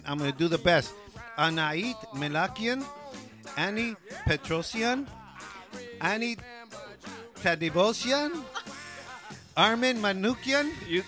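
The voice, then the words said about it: Mexican-American accent. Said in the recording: “with all this Mexican-American accent.”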